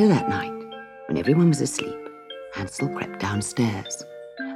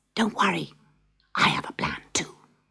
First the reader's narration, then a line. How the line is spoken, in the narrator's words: Hansel whispered